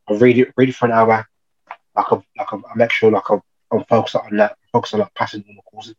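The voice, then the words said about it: Birmingham English accent. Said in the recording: “I'm originally from Birmingham, Cow accent. ... I can hear that.”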